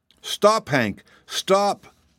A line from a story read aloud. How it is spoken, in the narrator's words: cried the girl